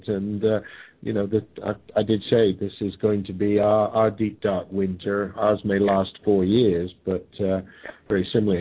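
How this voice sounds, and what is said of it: Speaks with a noticeable accent. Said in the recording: “I may have an accent”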